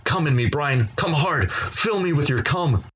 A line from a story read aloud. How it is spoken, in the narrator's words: Dez yelled out